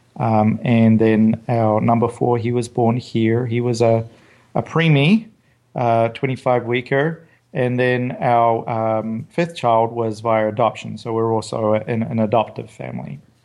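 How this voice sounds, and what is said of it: New Zealand accent. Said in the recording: “is probably already obvious from my accent. I'm not from the US. I was born in New Zealand”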